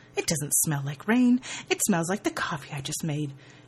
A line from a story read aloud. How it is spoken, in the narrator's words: Leah scoffs